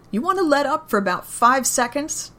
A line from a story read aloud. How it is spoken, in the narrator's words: Daryl yells up at the sky